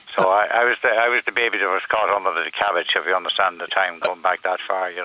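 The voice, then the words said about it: Local Dunleer accent. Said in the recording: “I love the Dunleer accent.”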